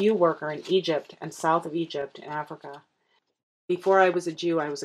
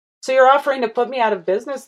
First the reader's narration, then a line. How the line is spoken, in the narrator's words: the worker laughed